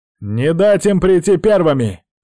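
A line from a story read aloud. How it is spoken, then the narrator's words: Shouted at full voice. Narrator (Russian): прокричал он во всю глотку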